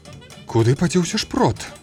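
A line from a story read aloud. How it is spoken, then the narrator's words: Exclaiming. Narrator (Belarusian): усклікнула мара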